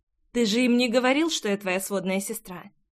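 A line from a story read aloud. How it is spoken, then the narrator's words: Plain. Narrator (Russian): спросила девушка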